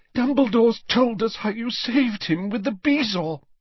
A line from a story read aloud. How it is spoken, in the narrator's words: she sobbed